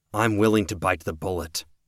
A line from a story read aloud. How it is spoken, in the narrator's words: Cody said